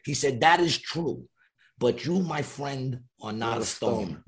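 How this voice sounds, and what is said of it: Italian New Yorker mobster impression. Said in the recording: “great, great Italian New Yorker impression.”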